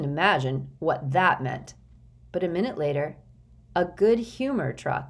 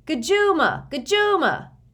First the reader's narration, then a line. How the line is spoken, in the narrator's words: all the kids started yelling